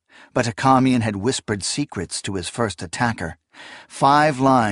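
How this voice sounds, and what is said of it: Usual voice. Nothing is said of it.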